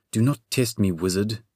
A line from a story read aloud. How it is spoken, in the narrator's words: the Sphinx growled